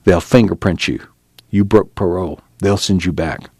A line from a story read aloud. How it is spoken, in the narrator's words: He whispered